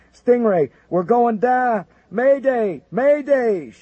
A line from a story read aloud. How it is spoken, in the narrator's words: shouted a high-pitched voice